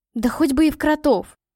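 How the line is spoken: Exclamation. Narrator (Russian): воскликнула Катя

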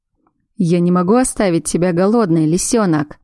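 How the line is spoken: Low gruff voice. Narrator (Russian): произнес он своим низким, грубоватым голосом

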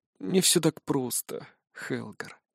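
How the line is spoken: Sad reply. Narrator (Russian): грустно отвечает Беренгар

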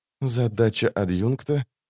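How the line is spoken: Quiet. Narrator (Russian): тихо проговорила Лорн

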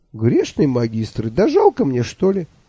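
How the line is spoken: Cheerful exclamation. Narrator (Russian): весело воскликнул я

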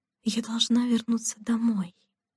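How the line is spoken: Whispered to herself. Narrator (Russian): шепотом сказала она себе

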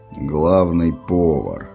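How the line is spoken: Quiet. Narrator (Russian): тихо проговорил отец

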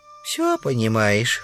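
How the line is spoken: Gravedigger sighing. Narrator (Russian): вздохнул могильщик

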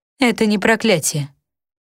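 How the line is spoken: Calm. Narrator (Russian): говорит Ноэми спокойно

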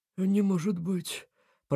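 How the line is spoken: Mumbled. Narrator (Russian): пробормотал

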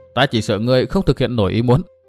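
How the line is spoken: Scornful laugh. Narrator (Vietnamese): Tư Mã Minh cười nhạt

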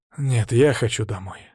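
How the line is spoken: Plain. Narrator (Russian): сказал он

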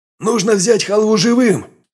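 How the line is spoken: Shout. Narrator (Russian): крикнул я

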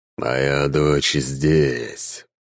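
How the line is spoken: Growling. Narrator (Russian): прорычал Эмердин

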